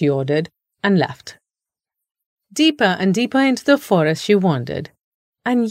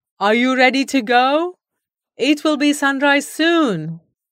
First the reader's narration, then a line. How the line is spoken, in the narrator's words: He called out loudly